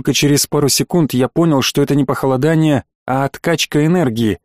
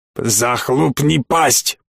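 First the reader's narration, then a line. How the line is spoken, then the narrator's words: Growl. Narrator (Russian): прорычал ушкуйник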